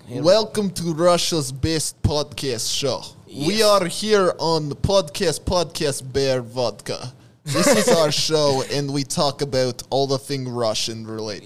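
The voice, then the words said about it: Put-on Russian accent. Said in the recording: “I think I am in the mood of the Russian man with the accent.”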